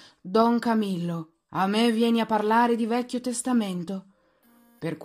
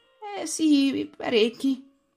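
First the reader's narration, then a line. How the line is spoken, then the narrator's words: Sighed. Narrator (Italian): sospirò Peppone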